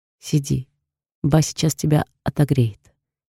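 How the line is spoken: Tender. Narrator (Russian): говорит, посмотрев нежно на меня

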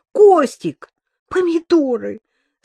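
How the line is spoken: Anguished exclamation. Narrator (Russian): страдальчески воскликнула Маша

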